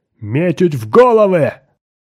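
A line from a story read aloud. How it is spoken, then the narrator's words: Yelled. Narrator (Russian): заорал Фвар-Ай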